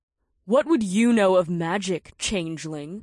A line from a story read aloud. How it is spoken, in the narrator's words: Naomi sneered